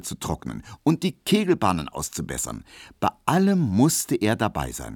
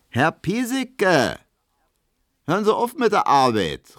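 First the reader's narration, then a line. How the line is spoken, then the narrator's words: Called out. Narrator (German): rief Hedwig ihm zu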